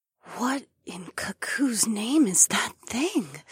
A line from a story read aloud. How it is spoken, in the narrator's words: Ahuara muttered with a mixture of wonder and fear in her voice